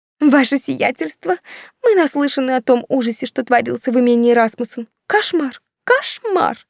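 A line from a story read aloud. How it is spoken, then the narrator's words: Shrill rapid chatter. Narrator (Russian): Визгливым голосом затараторила Ханна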